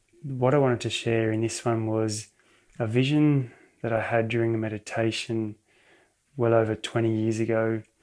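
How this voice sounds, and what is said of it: Whispering. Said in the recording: “I'm just whispering a bit here”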